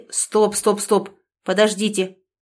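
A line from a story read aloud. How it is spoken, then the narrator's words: Sharp interruption. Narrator (Russian): резко прервал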